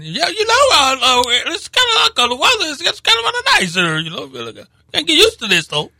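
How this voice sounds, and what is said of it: Imitates another person's voice. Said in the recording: “I feel like doing this Justin McFarland. ... Is that what Justin sounds like? ... That's close. ... your impression of him”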